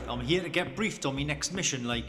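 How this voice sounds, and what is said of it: Thick regional British accent. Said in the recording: “That's quite a thick accent you've got there. What part of Scotland are you from”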